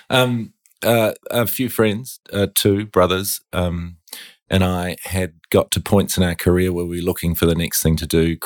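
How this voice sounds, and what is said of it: New Zealand accent. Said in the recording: “It started on a beach in New Zealand. ... As you probably get from my accent.”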